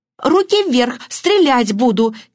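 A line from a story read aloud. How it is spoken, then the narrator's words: Theatrical exclamation. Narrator (Russian): театрально воскликнула мисс Баннер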